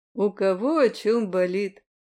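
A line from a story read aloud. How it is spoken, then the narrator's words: Snorting. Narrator (Russian): хмыкнул Ланс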